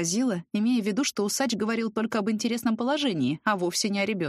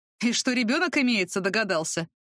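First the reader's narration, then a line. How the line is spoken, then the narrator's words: Wry snort. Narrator (Russian): хмыкнул Сокол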